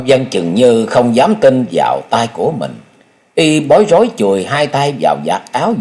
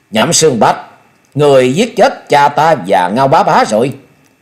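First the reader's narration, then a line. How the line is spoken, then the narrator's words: Murderous loud shout. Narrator (Vietnamese): Thôi Vân sát quang bừng bừng lớn tiếng quát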